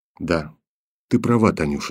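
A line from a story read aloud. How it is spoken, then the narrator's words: Barely audible. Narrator (Russian): сказал он еле слышно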